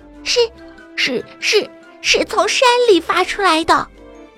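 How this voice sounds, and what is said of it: Quiet stammering whisper. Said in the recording (Chinese): “小声地说”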